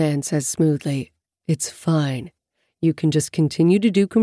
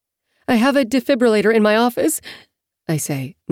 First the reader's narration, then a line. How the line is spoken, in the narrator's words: my voice squeaking with nerves